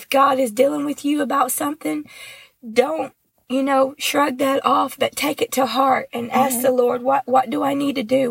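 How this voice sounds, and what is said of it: Sick, under-the-weather voice. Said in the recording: “my voice is, you know, under the weather here”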